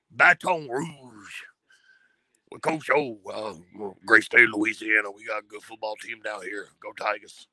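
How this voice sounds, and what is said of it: Imitates another person's voice. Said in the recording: “that Coach O impersonation ... I got to applaud you for that impression, dude. That was spot on. That was spot on.”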